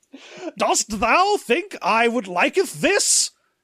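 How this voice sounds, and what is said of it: Overwrought Shakespearean British accent. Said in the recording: “an overwrought British accent? ... Some Shakespearean ass bullshit.”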